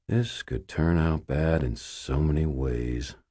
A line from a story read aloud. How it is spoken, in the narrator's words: I muttered